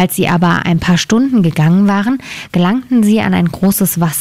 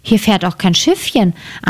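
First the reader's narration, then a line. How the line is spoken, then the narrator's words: Plain. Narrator (German): antwortete Gretel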